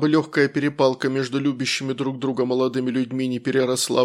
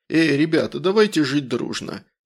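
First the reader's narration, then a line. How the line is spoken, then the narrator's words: Muffled, husky toast. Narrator (Russian): провозгласил слегка приглушенным голосом с хрипотцой в стиле генерала Михалыча из особенностей национальной охоты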